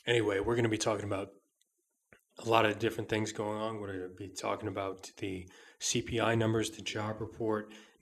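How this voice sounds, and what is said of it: Hoarse, smoky, sick-sounding voice. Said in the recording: “I'm feeling a little bit under the weather today, as you can probably hear by my voice ... I like that kind of smoky sound he has to his voice. Oh, man, it's bad. I sound a little bit like Clint Eastwood.”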